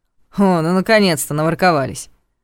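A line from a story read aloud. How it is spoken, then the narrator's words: Amused snort. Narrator (Russian): хмыкнул Ваня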